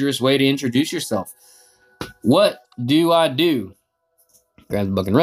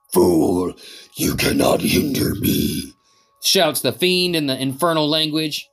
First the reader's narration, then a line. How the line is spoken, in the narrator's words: his voice a hiss